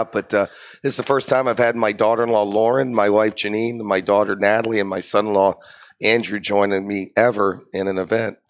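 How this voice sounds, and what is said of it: Worn-out voice from overuse. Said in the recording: “excuse my voice, I've been doing some good events the last couple of days, and I've been talking nonstop”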